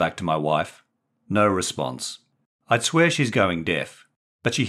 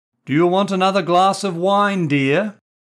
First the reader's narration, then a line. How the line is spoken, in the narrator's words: repeated, more loudly